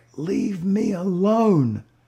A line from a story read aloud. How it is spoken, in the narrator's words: a girl got yelled at so much by her own dad, that she finally screamed back